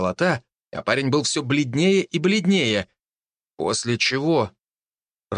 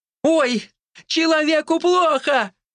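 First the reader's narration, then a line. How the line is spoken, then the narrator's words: Louder alarmed shout. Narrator (Russian): еще громче закричала она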